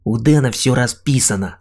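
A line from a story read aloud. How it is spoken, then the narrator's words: Irritated grumble. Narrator (Russian): раздраженно пробурчал Сим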